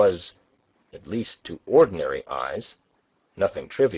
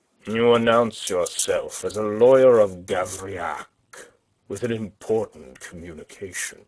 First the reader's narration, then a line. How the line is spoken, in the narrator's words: he growled